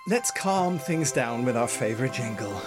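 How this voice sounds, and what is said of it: Exaggerated radio announcer voice. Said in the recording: “I went into my radio voice there”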